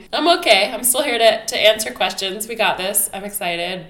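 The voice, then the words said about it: Slightly off, sick-sounding voice. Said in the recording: “I was sick with a really bad cough. I am still sick... you might hear my voice is a little off or coughing”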